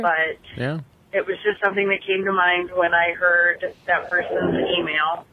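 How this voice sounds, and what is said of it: Strong Midwestern American accent. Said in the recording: “She's got such a Midwest accent. It's incredible.”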